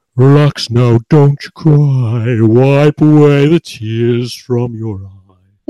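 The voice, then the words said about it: Deep sung voice. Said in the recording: “very, very kind of Crash Test Dummies deep voice.”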